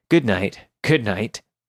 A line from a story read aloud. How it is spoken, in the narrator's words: chuckled to himself, muttering